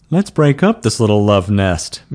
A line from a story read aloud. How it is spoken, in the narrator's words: Mule chuckled